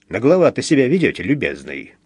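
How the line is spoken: Muttering grumble. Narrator (Russian): пробурчал он

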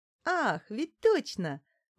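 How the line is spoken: Exclaimed, then giggled. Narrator (Russian): воскликнула незнакомка и захихикала

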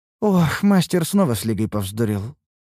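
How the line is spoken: Sighing. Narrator (Russian): вздохнула Лейна

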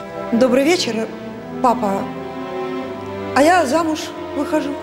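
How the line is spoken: Calm. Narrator (Russian): спокойно произнесла

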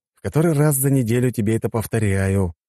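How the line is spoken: Sighing. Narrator (Russian): вздохнул я

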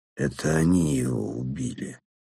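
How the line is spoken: Strained thick voice. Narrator (Russian): выдавил он вязким голосом

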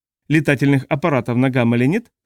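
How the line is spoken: Plain. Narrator (Russian): спросил Стэтсон

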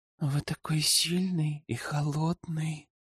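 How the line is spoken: Purring. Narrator (Russian): промурлыкала ведьма

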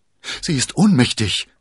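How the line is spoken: Excited soldier. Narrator (German): sagte der Soldat aufgeregt

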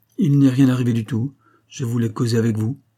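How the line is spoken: Curt. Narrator (French): dit sèchement Rose

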